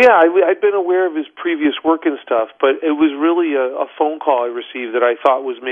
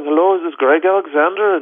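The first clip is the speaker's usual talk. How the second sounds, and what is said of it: Put-on Irish accent. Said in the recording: “with this Irish accent going”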